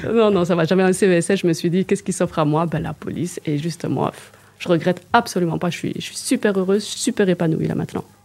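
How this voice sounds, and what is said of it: Strong Liège Belgian French accent. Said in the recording (French): “j'ai l'accent liégeois ... Il est magnifique l'accent liégeois ... il est trop, il est trop accentué ... Il est moins qu'au début”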